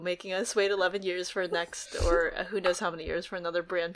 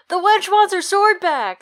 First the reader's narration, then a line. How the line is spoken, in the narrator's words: yells out